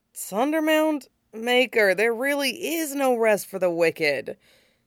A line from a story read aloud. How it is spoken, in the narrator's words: said Hawk, and then groaned again